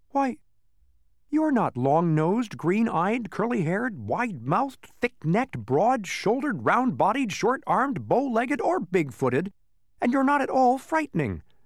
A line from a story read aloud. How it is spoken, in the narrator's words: said Milo indignantly